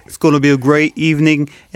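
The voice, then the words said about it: Imitates another person's voice. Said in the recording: “My Trump, because it always turns into Bernie Sanders ... He sounds like Trump after a stroke.”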